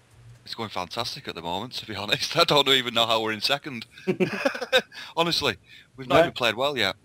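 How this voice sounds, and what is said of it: Scouse accent. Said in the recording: “your Scouse accent. We were wondering if you would have a Scouse accent.”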